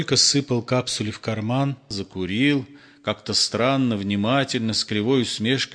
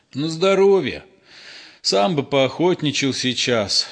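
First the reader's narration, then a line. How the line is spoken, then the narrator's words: Sigh. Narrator (Russian): вздохнул фельдшер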